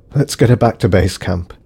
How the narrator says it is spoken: said Davison wearily

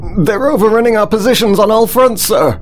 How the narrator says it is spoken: yelled the panicking officer over the chaos of the control room

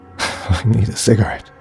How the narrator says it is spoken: she gasped quietly to herself

